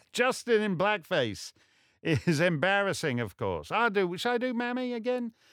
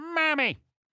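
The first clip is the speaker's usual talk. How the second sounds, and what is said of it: Imitates another person's voice. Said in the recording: “my Justin Trudeau impression”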